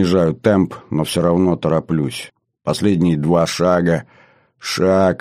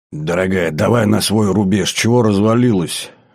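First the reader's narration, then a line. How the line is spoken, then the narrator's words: Showing off, wheezing. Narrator (Russian): выпендрился я, сипло дыша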